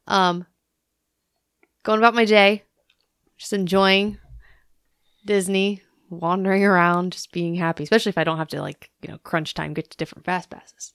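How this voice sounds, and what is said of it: Slightly hoarse voice. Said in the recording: “Still a little hoarse.”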